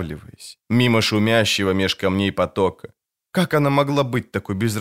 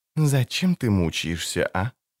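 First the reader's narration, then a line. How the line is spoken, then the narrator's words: Serious, calm sorceress's voice. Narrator (Russian): спросил Кордик серьезным, спокойным голосом педантичной чародейки по имени Тиссая Деврие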